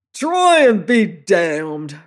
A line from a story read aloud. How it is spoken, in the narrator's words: roared the fellow